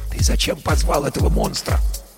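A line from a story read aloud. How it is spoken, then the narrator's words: Whisper into ear. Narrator (Russian): шепнул Герман на ухо Баженову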